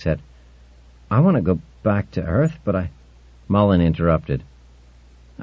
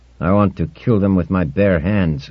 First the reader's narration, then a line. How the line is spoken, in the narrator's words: growled the farmer